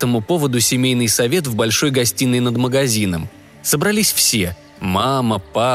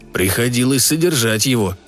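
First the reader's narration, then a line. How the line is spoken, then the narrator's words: Gloomy father. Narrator (Russian): сказал папа мрачно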